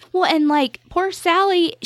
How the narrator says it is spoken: he yelled at her

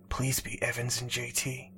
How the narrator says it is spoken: he whispered under his breath

